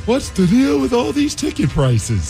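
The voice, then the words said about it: Bad Jerry Seinfeld impression. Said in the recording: “do a Jerry Seinfeld impression? ... That was pretty good. ... No, it was bad. ... It was actually pretty awful.”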